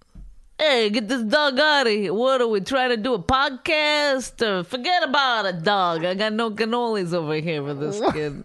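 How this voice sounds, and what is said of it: Exaggerated New Jersey accent. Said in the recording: “Is that a good Jersey accent? Because I've been trying to do a Jersey accent. ... What is it? Goodfellas? ... It sounds ridiculous. ... I think I'm doing a girl.”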